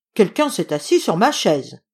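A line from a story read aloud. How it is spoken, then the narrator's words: Deep gruff bear growl. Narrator (French): gronda papa ours de sa grosse voix bourrue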